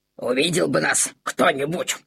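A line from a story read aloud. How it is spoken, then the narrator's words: Pleased lip-smacking grumble. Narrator (Russian): С удовольствием причмокивая, проворчал Максимилиан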